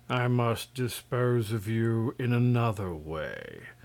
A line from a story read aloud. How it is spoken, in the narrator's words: said Terribus, regarding the prince gloomily